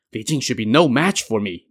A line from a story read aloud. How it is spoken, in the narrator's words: thought to himself